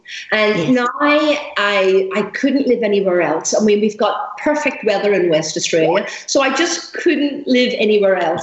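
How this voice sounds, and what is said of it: Irish accent. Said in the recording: “that lovely accent I can hear in your voice ... I'm from Ireland”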